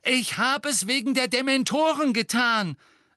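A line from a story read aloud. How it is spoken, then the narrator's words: Loud. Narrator (German): sagte er laut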